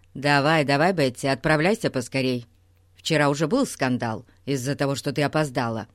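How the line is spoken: Stern brother. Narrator (Russian): строго сказал брат

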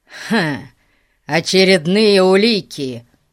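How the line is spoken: Scornful snort. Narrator (Russian): фыркнул он

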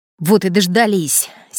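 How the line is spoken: Angry. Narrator (Russian): сердито сказал Сергей Сраешкин

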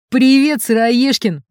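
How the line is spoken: Deep shout from afar. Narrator (Russian): басом кричал еще издали Макар

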